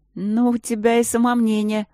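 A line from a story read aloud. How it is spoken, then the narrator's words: Laughing. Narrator (Russian): рассмеялась я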